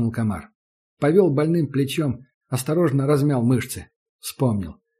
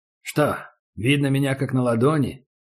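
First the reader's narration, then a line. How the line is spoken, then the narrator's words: Calm question. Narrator (Russian): спокойно спросил Убер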